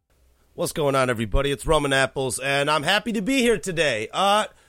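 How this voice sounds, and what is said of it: Congested, sick-sounding voice. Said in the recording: “kind of a little congested or my voice is not as normal sounding as it usually is, it's because I'm sick”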